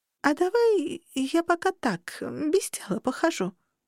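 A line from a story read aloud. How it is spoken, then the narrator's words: Timid suggestion. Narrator (Russian): предложила робко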